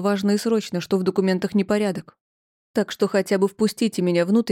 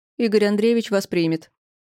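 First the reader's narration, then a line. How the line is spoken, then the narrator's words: Cold metallic voice. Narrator (Russian): сказала она металлическим голосом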